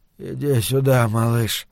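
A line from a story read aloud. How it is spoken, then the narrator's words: Absent-minded muttering. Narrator (Russian): бормотал он, не ощущая смысла собственных слов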